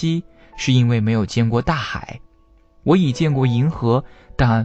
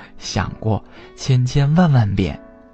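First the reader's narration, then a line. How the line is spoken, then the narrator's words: Laughing. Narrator (Chinese): 小白兔笑着说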